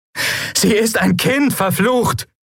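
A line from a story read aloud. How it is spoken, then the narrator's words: Shouted. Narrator (German): schrie Lien die Schatten an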